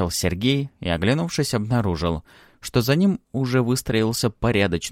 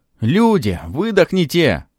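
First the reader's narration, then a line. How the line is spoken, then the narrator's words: Shouting from doorway. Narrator (Russian): кричали в салон, зависшие в дверях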